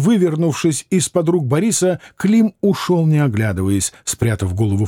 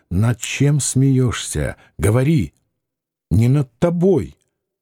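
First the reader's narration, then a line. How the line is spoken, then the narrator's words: Fearful. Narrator (Russian): сказал Клим, уже боясь, что Борис ударит его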